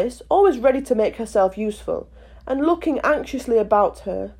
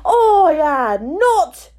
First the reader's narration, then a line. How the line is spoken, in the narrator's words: cried the mouse sharply and very angrily